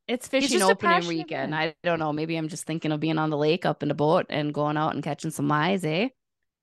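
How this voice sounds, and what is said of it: Very thick regional accent. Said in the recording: “That's how you said it, with the thickest accent I've heard in my entire life.”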